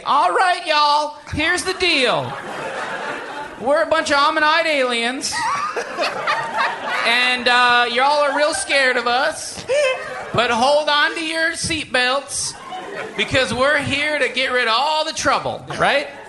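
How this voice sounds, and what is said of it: Put-on Southern accent. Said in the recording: “They have a southern accent”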